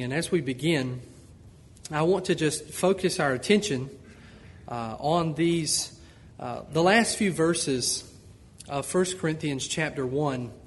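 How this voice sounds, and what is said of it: Southern Georgia accent. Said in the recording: “I am from Georgia, and if you were from Georgia, you would not think I have an accent, but Brother Dekema told me that I do have an accent,”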